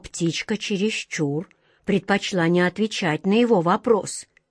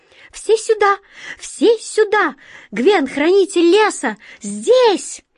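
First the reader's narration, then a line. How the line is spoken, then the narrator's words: Excited bird clamor. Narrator (Russian): Птицы, взволнованно галдя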